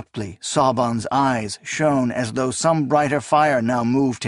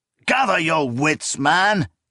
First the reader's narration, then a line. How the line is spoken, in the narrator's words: Gotian roared